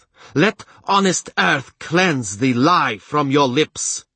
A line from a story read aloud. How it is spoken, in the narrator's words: she shouted triumphantly